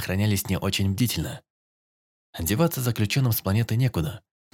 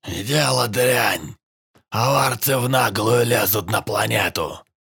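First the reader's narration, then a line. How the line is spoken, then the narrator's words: Hoarse old man. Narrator (Russian): хрипел старик Карн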